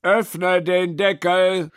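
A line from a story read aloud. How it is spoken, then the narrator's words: Student calling out. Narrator (German): rief der Student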